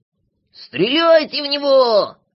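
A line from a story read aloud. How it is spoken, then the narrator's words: Spluttering shout. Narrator (Russian): закричал, брызгая слюной Клопс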